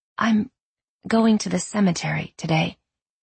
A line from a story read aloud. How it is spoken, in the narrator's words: she said quietly